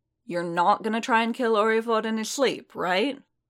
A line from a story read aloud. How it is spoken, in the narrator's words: Paz sighed